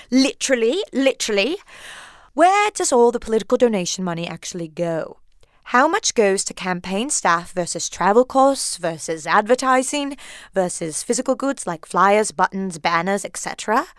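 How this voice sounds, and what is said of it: Put-on British accent. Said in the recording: “Do it in her best British accent. ... getting into my British accent. ... That's quite an accent”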